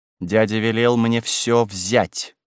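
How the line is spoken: Grumbling through teeth. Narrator (Russian): Госпожа Леонс ворча сквозь зубы

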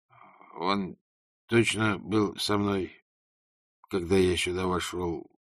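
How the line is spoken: Muttering. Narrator (Russian): пробормотал он

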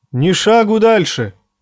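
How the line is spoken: Shout from above. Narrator (Russian): крикнули с башни

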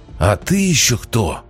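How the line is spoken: Growl slurred by fangs. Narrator (Russian): опомнившись, прорычал Арамис, немного невнятно из-за клыков

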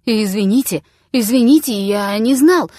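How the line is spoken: Flustered babbling. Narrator (Russian): залепетал Штопель

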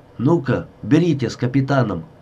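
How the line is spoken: Stern, pre-emptively indignant. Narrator (Russian): Строго и загодя возмущенно на предполагаемое неповиновение сказал он

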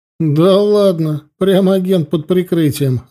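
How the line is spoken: Laughing. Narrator (Russian): рассмеялся

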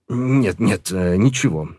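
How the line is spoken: Forced out, strained. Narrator (Russian): выдавил он

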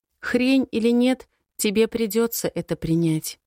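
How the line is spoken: Calm. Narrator (Russian): говорит спокойно

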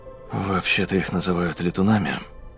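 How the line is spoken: Quiet. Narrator (Russian): тихо произнес он

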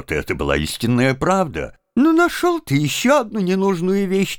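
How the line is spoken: Mocking. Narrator (Russian): насмешливо продолжал он

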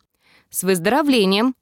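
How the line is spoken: Prompt announcement. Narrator (Russian): тут же объявил

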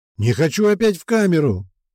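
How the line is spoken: Sudden yell. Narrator (Russian): Вдруг заорал

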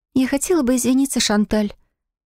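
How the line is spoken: Quiet, apologetic. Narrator (Russian): тихо произнесла сестра, виновато

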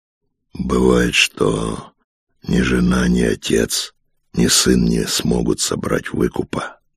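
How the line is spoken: Hoarse rasp. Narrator (Russian): прохрипел он

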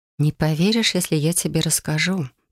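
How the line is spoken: Whispered. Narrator (Russian): прошептала я

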